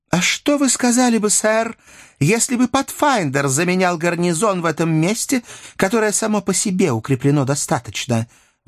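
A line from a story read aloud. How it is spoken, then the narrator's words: Exclaimed. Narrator (Russian): воскликнула Мейбл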